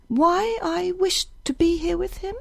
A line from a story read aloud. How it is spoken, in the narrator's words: smiled bitterly